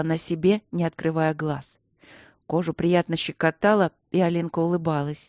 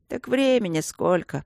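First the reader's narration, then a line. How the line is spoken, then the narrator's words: Sleepy. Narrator (Russian): сонно сказал кто-то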